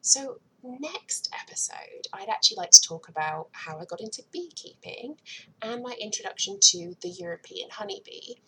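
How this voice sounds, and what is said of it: British accent. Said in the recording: “listen to me talking in this British accent”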